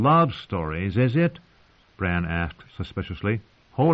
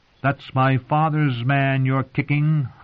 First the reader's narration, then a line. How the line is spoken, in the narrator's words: howled the she-wolf